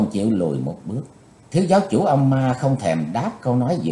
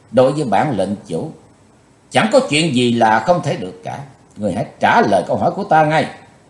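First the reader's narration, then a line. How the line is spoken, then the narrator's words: Threatening. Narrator (Vietnamese): lời nói của Chí Tôn như dọa nạt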